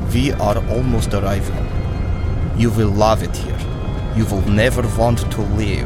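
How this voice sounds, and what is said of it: Heavy, hard-to-understand foreign accent. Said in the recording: “it's kind of hard to understand your accent. I feel like I'm getting every other word.”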